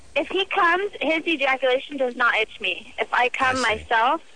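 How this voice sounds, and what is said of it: Speaks with a noticeable accent. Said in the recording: “What is this accent?”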